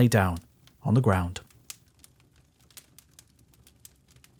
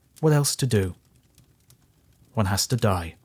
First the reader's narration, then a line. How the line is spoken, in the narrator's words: the poor man he said, very calmly